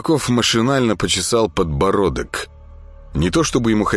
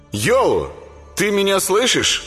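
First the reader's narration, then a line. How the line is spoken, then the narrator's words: Loud question. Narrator (Russian): громко спросил он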